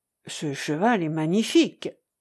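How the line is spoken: Murmuring. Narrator (French): murmura-t-il

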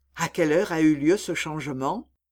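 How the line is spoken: Murmuring in ear. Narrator (French): murmura-t-il enfin à l'oreille de Miss Ophélia

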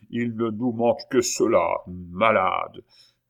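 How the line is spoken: Grumbling. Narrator (French): grommela

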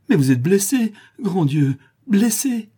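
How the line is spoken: Sobbing alarmed cry. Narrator (French): Elle aperçoit une tache de sang rougir la laine grise de sa chemise de cow-boy, et s'écrie avec un sanglot

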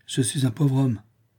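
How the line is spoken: Morose tone. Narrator (French): répondit-il d'un ton morose

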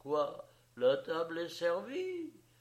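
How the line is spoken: Astonished exclamation. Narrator (French): s'écria-t-il étonné

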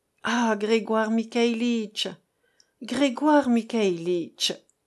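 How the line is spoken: Heavy sigh. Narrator (French): commença-t-il avec un gros soupir

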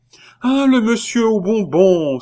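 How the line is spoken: Young boy exclaiming. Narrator (French): s'écria le jeune Toussaint

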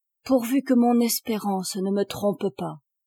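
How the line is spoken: Sighing. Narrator (French): soupirait-elle

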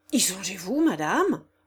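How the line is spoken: Thunderstruck cry. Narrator (French): s'écria Holzbauer, frappé comme d'un coup de foudre

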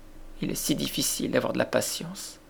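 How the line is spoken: Sad murmur. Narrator (French): murmura la pauvre Mary

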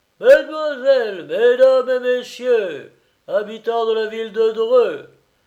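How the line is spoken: Booming shout. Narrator (French): cria Turpinski d'une voix de stentor

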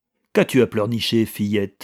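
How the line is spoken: Harsh. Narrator (French): dit-il durement

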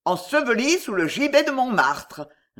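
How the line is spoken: Sneered defiantly. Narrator (French): ricana Saëta en une suprême bravade

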